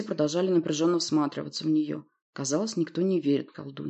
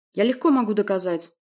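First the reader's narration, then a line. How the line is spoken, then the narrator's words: Irritated bark. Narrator (Russian): раздраженно рявкнул Власт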